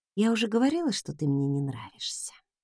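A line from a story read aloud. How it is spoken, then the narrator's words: Muttering. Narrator (Russian): пробормотала я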